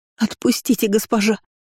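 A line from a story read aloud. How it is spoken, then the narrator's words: Tearful sobbing maid. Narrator (Russian): слезно рыдала одна из служанок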